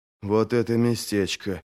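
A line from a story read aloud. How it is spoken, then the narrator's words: Muttering. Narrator (Russian): пробормотал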